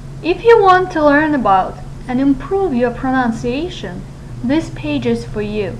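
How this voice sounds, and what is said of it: Russian accent. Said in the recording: “My accent is Russian.”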